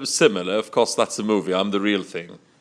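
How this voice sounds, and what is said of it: Put-on proper English accent. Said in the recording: “Come inside English person... But your accent I don't like... But this is the proper English, sir.”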